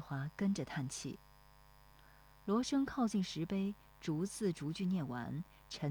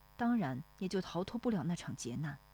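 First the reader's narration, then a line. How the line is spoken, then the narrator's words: Sighing. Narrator (Chinese): 石丽华跟着叹气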